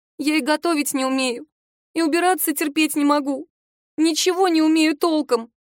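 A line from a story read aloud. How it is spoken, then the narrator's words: Sobbing. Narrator (Russian): она всхлипывает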